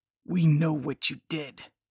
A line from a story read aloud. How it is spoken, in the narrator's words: growled